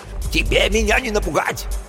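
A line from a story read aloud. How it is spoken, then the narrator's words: Yelling. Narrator (Russian): орал что-то вроде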